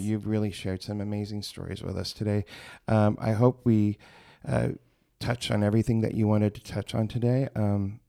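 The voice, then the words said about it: Slightly rough, emotional voice. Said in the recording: “my voice is a little rough because this means so much to me”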